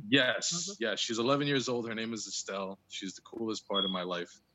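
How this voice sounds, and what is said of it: New Jersey accent. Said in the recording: “you have an accent ... for our area, you got an accent ... I'm originally from New Jersey, born and raised”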